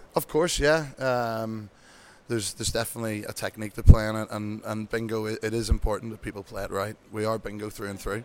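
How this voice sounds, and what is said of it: Irish accent. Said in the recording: “if you can tell by my accent, from Ireland”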